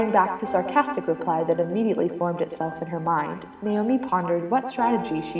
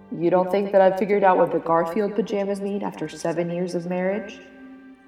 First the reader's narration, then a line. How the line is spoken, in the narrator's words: said Jed